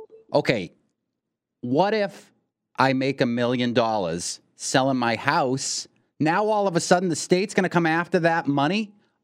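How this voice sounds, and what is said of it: Put-on Boston accent. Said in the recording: “I will do it in a Boston accent just to make it more realistic”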